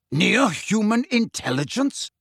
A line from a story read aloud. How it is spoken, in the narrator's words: repeated Megorian